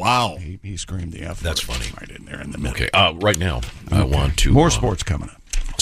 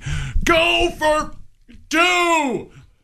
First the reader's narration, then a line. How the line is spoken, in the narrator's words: Dak Prescott is seen on the sideline screaming